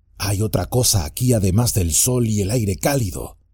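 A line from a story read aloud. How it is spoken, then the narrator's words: Whispering to himself. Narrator (Spanish): se susurró a sí mismo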